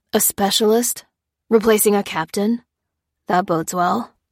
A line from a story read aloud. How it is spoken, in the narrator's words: grunted Ruth